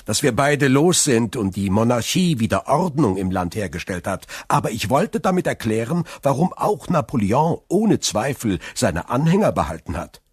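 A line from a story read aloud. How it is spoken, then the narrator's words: Laughing. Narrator (German): fügte er lachend hinzu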